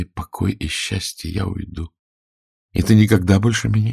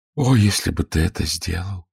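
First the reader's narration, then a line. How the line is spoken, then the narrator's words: Sighing. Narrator (Russian): вздохнула она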